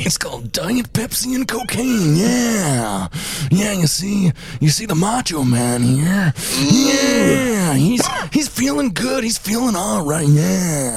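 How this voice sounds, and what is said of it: Phlegmy Macho Man impression. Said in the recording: “doing his voice, it makes you real phlegmy”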